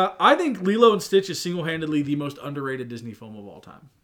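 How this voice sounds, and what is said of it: Usual voice. Nothing is said of it.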